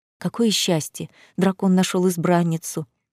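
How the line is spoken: Whispered behind us. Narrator (Russian): шептали нам вслед

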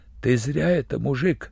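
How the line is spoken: Muttering. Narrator (Russian): забормотал он

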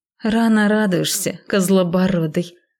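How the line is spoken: Snorting. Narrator (Russian): фыркнула я

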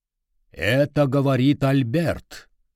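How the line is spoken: Deep voice, amused. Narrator (Russian): сказала она басом, и я понял, что ей весело

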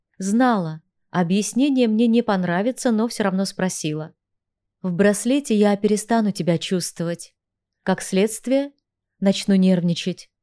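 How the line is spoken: Calm explanation. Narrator (Russian): спокойно пояснил Влад

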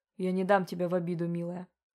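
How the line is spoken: Muttered. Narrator (Russian): пробормотал он

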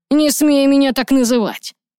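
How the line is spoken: Startling shout. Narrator (Russian): Он крикнул так, что девушка вздрогнула

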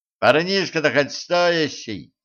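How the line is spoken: Cheerful question. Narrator (Russian): весело спросил кто-то

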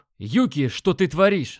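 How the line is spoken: Yelling. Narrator (Russian): заорал я

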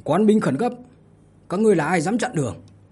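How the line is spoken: Loudly asked. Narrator (Vietnamese): Trần Lập Thu lớn tiếng hỏi

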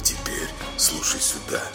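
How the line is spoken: Quiet. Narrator (Russian): тихо заговорил он

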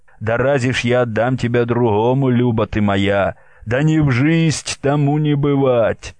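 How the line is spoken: Laughing. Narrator (Russian): Федор смеялся

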